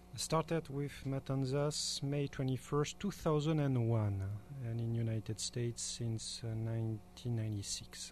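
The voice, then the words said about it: French accent. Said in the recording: “I love your accent ... I'm French ... I'm from the Languedoc ... deep south of France”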